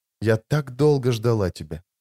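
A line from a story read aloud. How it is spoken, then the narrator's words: Barely audible dying whisper. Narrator (Russian): еле слышно прошептала умирающая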